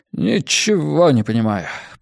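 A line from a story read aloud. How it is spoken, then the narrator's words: Mumbled. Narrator (Russian): пробормотал Хент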